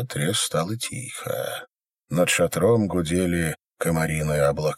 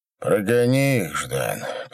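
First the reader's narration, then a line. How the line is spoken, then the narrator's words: Tired request. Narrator (Russian): попросил Пожарский устало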